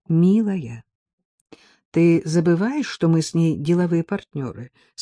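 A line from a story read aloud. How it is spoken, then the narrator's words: Calm husband's reminder. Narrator (Russian): спокойно напомнил муж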